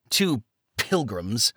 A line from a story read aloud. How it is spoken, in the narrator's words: he spat the word as if it tasted bitter on his tongue